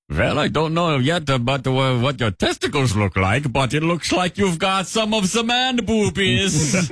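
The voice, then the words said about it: Put-on German doctor accent. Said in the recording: “wish this doctor had a German accent, so would you deliver the news about breasts in the style of a German doctor”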